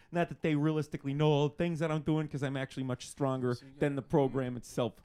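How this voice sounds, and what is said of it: Midwestern American accent. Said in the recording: “you have a very specific accent ... you're Midwestern”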